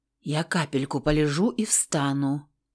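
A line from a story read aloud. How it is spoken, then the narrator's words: Faint whisper. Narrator (Russian): прошептала белыми губами, не открывая глаз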